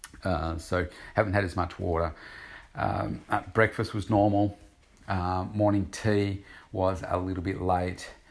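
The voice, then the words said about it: Slightly croaky, dry voice. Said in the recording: “I am feeling a little bit dehydrated. Probably my voice sounds a little bit croakier.”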